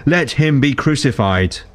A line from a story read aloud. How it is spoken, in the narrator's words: they shouted all the more